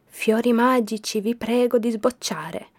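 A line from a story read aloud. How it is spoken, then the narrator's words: Whisper. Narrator (Italian): gli sussurrò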